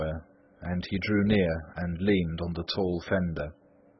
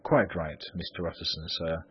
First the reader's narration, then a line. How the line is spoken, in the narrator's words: replied the servant